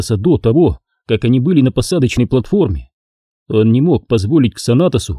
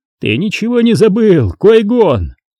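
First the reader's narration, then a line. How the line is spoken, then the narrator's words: Shouting over roaring wind. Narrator (Russian): прокричал ему Ксанатос сквозь ревущий ветер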